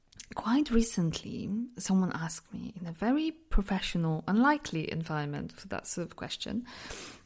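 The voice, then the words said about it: Mixed Polish-based foreign accent. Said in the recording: “I'm from Poland, but because I lived in so many different places, my accent is just a bit, it's just a mix”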